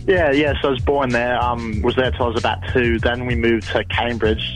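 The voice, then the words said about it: Interesting American-influenced accent. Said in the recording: “I was born in the US, US of A. ... that's where this interesting accent comes from.”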